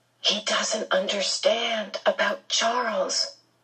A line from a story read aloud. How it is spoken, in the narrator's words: she whispered to Calvin, looking unhappily